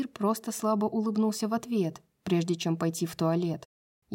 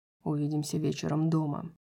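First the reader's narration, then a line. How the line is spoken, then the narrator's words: Quiet. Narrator (Russian): тихо сказал он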